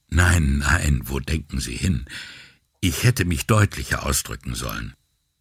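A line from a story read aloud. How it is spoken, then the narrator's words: Gentle voice. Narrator (German): sie antwortete mit sanfter Stimme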